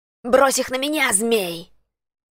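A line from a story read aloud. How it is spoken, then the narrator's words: Challenging shout. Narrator (Russian): закричал Нейт, вызывая на бой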